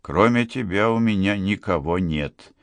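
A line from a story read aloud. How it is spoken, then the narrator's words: Quiet. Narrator (Russian): тихо сказал Джордж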